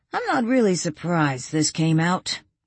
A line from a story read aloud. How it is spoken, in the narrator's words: Chris said with a sigh